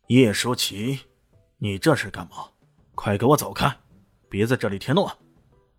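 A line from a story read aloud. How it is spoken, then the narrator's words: Stern, deep rebuke. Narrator (Chinese): 叶永游顿时脸色一沉 沉声喝道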